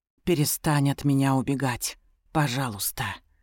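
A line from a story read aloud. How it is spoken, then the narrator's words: Soft plea. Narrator (Russian): мягко просит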